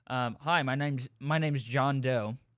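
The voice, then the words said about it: Slight Australian accent. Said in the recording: “a little bit of an Australian accent came out there”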